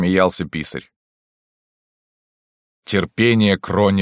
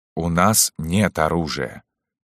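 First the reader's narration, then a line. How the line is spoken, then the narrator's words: Plain. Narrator (Russian): сказал Рази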